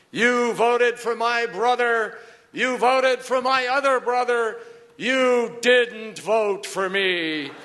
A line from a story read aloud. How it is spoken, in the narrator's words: his voice boomed out in this room